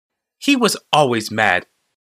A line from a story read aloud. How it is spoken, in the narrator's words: said Marisol firmly